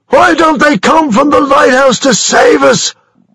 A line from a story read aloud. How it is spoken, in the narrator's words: shouted James Kelly